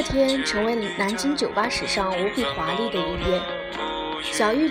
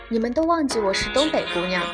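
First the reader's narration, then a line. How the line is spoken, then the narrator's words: Sly smile. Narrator (Chinese): 小玉 她冲我偷偷一笑，说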